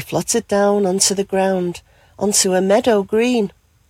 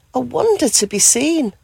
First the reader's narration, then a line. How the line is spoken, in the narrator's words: she gasped with joy